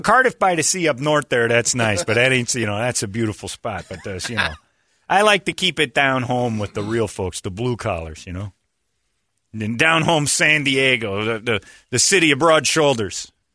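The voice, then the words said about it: Put-on Chicago accent. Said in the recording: “Where did this accent come from? ... I got my Chicago accent from Mira Mesa.”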